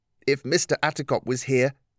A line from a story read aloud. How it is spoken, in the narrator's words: she said